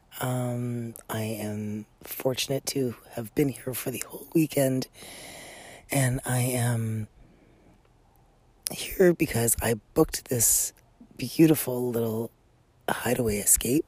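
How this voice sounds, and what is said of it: Groggy, sleepy-sounding voice. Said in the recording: “if I sound a little groggy”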